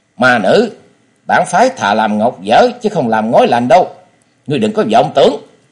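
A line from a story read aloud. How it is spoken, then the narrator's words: Angry reply while fighting. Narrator (Vietnamese): Đồng Bách Nhất Kiếm Tây Môn Tuấn vừa phải đối phó với bốn nam nữ kiếm thủ, vừa giận dữ đáp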